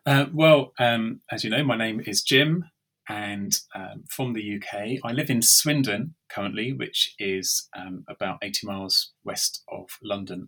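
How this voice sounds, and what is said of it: English accent. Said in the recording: “I love that English accent”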